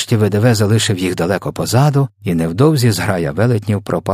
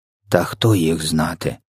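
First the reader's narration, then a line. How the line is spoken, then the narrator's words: Sigh. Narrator (Ukrainian): зітхнув ВДВ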